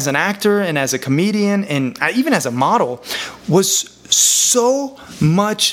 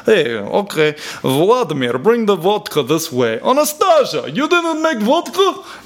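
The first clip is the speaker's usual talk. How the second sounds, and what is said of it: Put-on Russian accent. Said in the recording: “I learned how to do accents, you know. Oh, you want to be Russian?”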